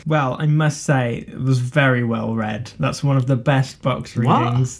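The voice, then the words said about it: Sarcastic mock praise. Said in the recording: “I'm being sarcastic.”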